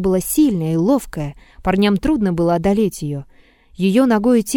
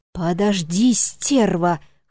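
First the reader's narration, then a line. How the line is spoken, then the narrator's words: Hoarse wheeze, young man. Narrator (Russian): хрипел парень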